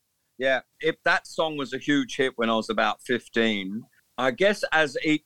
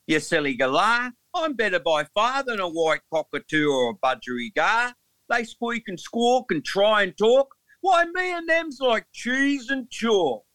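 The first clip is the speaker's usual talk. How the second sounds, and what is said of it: Put-on Australian accent. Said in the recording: “In an Aussie accent.”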